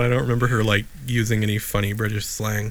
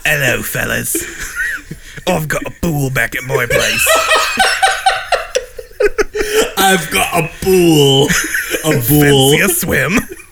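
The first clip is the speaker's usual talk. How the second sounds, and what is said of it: Put-on British accent. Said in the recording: “she talked like this... She did have a British accent.”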